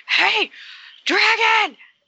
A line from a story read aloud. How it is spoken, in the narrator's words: scream over to the dragon